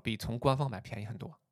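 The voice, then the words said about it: Quiet, hushed aside. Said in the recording (Chinese): “我小声说”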